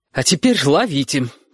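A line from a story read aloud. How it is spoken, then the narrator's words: Ringing voice. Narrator (Russian): сказала Сашка звенящим голосом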